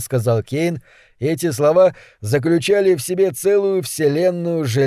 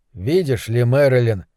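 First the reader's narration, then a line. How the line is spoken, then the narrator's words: Tender. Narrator (Russian): проговорил Кейн ласково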